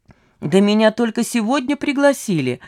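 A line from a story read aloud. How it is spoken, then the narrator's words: Cheerful justifying. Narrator (Russian): радостно оправдывался Веселовский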